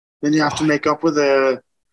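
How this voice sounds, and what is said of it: Weak put-on Scouse accent. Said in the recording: “Is it a Scouse? ... they have this fucking accent ... It's not your best accent.”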